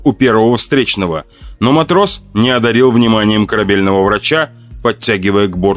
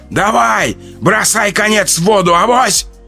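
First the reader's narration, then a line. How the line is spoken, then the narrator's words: Hoarse shout. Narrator (Russian): хрипло выкрикнули из толпы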